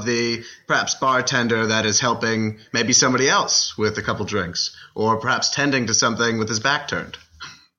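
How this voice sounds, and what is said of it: Posh Mid-Atlantic accent, Thurston Howell III. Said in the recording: “do I detect an accent in your voice of some kind? I'm catching a little, I don't know, Mid-Atlantic Higgins or Thurston Howell III ... You're bringing me right back to my Yale days ... people tend to start putting on airs”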